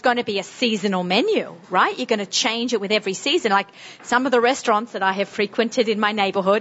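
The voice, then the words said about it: Strong Sydney Australian accent. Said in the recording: “Same accent as me? ... Melbourne versus really strong Sydney. ... I have not gotten rid of my accent. ... my crazy Australian accent ... my Sydney, strong Sydney accent”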